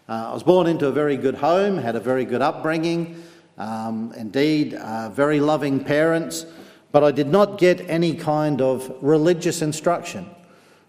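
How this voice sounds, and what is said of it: Western Australian accent. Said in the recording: “As you can tell by my brogue, I'm not from Cumber, but a little bit further south. I was born in Fremantle in Western Australia.”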